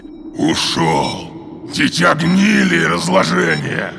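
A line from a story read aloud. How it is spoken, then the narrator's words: Angry growl. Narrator (Russian): гневно прорычал Гронк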